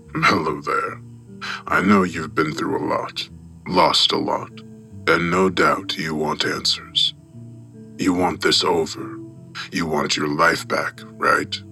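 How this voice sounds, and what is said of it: Deep, crackly recorded voice. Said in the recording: “a deep voice crackled out from its small speaker”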